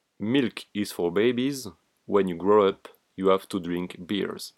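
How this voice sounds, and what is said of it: Accented English, possibly heavy. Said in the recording (French): “j'ai peut-être un accent euh, ... pire que lui.”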